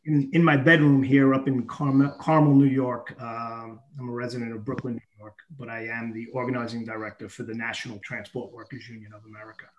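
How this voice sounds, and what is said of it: Regional American accent, not Californian. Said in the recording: “You'll guess from my accent that I'm not in California.”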